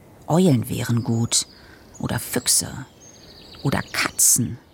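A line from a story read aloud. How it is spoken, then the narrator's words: Muttered. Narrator (German): murmelte er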